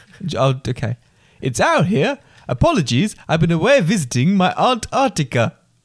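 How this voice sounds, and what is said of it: Put-on Belgian accent. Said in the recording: “he's Belgian ... Would you like me to try and read it in his accent?”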